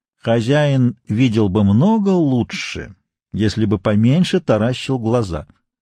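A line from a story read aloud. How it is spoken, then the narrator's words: Calm, phlegmatic. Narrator (Russian): Флегматичный консель спокойно говорил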